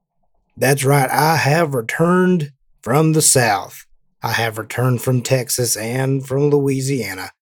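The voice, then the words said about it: Put-on Southern US accent. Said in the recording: “I have returned with this very suspicious accent. And I'm not going to keep it up the whole time.”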